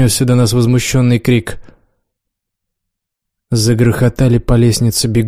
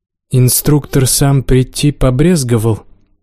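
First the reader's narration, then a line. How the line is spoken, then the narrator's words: Through gritted teeth. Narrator (Russian): процедила я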